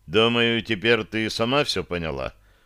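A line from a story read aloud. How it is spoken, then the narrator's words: Dry tone. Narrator (Russian): сухо произнес я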